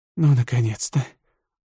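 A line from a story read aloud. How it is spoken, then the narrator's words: Relieved exhale. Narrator (Russian): Луксурия облегченно выдохнула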